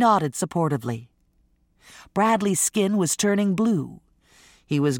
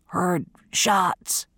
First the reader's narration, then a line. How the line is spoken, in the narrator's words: Bradley gasped